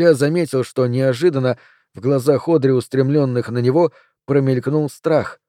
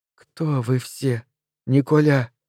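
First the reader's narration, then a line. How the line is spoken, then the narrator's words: Breathless exhale. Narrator (Russian): выдохнула она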